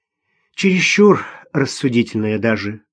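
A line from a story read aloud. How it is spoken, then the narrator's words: Hesitant sigh. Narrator (Russian): вздохнула Ирина, не зная, как начать объяснение о возникшем недоразумении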